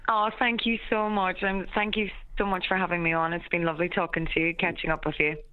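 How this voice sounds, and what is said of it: Irish Donegal accent. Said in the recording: “your Donegal accent... accent. I could listen to her”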